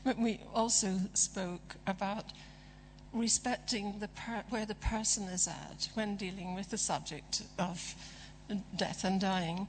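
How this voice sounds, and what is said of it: Strained, fading hoarse voice. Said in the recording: “my voice is really going now”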